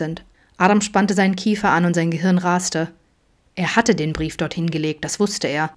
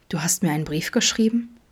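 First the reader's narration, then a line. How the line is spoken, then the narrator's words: Barely audible whisper. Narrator (German): flüsterte Vincent schließlich kaum hörbar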